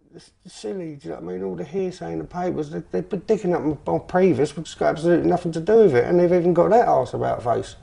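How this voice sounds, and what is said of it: Very heavy regional accent. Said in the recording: “his accent is very heavy”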